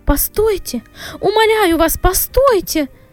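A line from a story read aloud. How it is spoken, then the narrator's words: Shouted after shock. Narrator (Russian): графиня оправилась от потрясения и закричала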